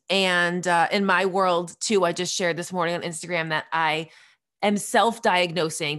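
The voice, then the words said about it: Congested voice from a head cold. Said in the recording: “you might be able to tell from my voice that I've got something in my throat. So it's something of a head cold.”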